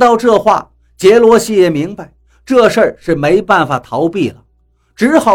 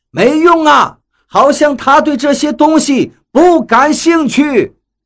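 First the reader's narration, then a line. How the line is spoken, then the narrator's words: Helpless shout. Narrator (Chinese): 杰罗西没了办法，回头冲我们喊道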